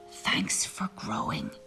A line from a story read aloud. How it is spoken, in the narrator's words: he whispered